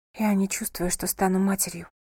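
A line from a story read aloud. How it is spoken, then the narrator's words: Whisper. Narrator (Russian): прошептала она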